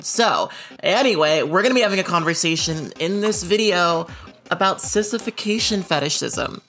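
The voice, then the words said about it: Slightly odd, unwarmed voice. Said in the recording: “My voice, I just woke up ... my voice is a little weird. But, you know, I'll drink up a little bit of this and maybe it'll get a bit better.”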